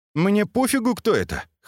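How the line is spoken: Snort. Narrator (Russian): хмыкнул тишина

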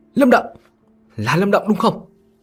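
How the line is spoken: Astonished urgent shout. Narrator (Vietnamese): Thần khôi kinh ngạc, vội vàng hét lên

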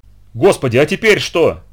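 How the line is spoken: Shouted. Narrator (Russian): выкрикнул Роб

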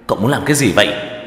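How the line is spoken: Shouting. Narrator (Vietnamese): gào lên

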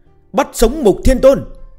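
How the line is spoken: Excited shout in unison. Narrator (Vietnamese): Các tướng sĩ dưới trướng gã phấn khởi đồng thanh hét lớn

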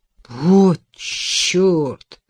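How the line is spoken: Stunned, disbelieving exhale. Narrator (Russian): выдохнул Том, все еще не смея поверить в услышанное

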